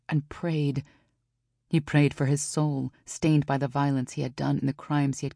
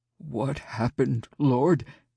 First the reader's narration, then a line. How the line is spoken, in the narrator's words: he asked, his voice quivering